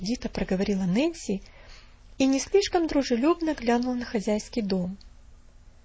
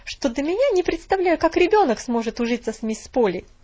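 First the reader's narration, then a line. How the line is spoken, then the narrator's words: Sharp reply. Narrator (Russian): резко ответила она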